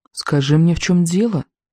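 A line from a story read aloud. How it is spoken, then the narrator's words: Soft. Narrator (Russian): мягко произнесла она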